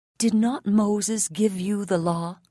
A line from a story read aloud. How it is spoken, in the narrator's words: he said